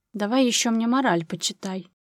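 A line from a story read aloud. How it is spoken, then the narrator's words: Hiss. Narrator (Russian): прошипела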